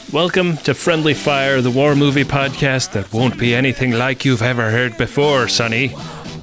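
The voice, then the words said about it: Put-on Northern Irish accent. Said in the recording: “accents... I really nailed the Northern Irish accent... Northern Irish.”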